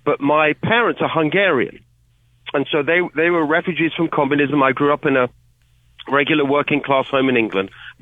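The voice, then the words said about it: British accent. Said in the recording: “people can hear from my accent. I'm originally from the UK.”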